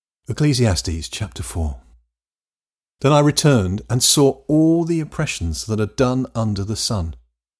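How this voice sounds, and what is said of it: English accent. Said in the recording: “coming to you in an English accent”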